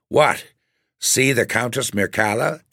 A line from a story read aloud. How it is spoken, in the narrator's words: exclaimed my father